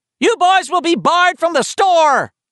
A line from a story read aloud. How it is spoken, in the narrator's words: the clerk yelled after him